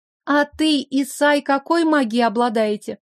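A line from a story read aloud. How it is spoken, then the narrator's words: Clear girlish voice. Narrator (Russian): Спросила чистым девичьим голосом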